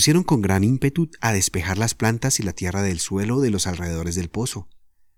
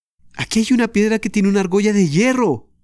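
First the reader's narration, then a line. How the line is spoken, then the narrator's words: Excited shout. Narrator (Spanish): gritó Ana excitadísima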